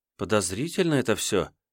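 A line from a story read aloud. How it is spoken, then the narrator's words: Girl's quiet voice. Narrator (Russian): негромко промолвила девчонка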